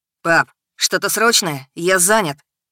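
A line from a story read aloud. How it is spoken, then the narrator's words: Annoyed bark into phone. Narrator (Russian): Рявкнул Максим в трубку, совершенно недовольный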